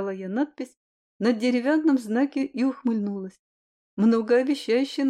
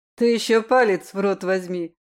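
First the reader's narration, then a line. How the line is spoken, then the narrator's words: Joking in powerful voice. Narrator (Russian): пошутила я вслух своим новым мощным голосом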